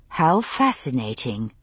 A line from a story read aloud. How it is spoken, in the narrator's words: I murmured